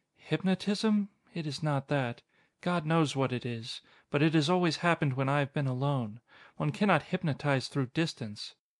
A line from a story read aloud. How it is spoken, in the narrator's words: I heard her murmur in a weary, troubled voice